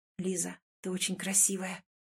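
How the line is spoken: Soft, intimate breathy exhale. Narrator (Russian): Тихо и до дрожи интимно выдыхает Ваня

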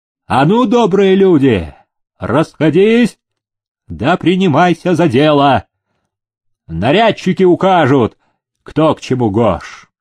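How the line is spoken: Commanding shout. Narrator (Russian): селезень по-хозяйски крикнул

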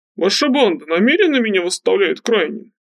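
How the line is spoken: Guffawing. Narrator (Russian): хохотал Утер

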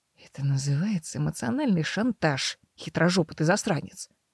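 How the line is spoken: Quiet grumble. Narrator (Russian): тихо проворчала Мэр

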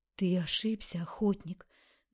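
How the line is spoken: Night whisper. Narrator (Russian): Ночной шепот

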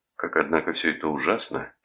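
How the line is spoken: Sad. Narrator (Russian): печально сказал Рудольф

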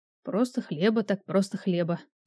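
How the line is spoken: Muttered. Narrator (Russian): пробормотал я

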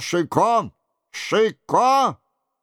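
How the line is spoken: Shouting king. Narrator (Russian): Король кричал

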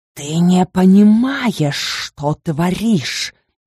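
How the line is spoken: Hissing. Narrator (Russian): зашипела она

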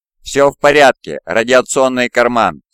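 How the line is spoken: Calm reply. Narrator (Russian): спокойно ответил Альфарий

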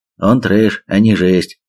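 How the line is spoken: Chuckling. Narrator (Russian): хохотнул корсар

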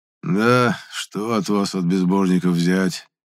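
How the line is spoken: Sighing. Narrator (Russian): вздохнул Епифан

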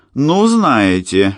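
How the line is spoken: Exclaiming. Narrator (Russian): воскликнула

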